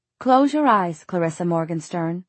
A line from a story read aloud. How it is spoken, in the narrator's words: the angel said